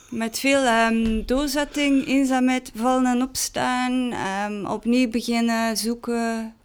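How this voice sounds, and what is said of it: Strong Ghent Flemish accent, marked R. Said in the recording (Dutch): “Ik ben dus van Gent, niet van Amsterdam. En ik heb dus een ontzettend Gents accent. Zeker de R.”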